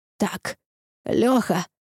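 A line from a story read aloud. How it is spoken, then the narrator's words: Breathy exhale. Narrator (Russian): выдохнул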